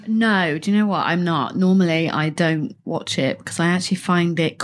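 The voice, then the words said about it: Bristolian English accent. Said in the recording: “Bristolian accent”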